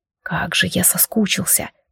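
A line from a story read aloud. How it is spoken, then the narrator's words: Muffled mutter. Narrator (Russian): приглушенно пробормотал он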